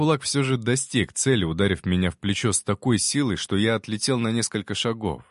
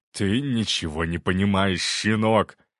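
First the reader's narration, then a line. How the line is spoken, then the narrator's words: Growled. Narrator (Russian): прорычал он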